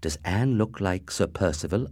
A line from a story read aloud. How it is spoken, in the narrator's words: I asked